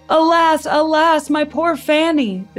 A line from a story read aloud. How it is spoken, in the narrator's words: the Duke shouted